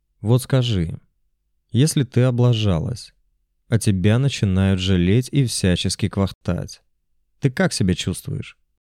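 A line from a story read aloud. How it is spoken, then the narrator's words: Plain. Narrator (Russian): Спросил я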